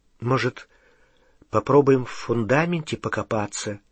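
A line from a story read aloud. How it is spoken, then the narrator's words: Hesitant suggestion. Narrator (Russian): неуверенно предложила Гермиона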